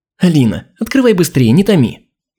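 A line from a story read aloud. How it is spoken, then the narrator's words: Laughing. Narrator (Russian): Засмеялась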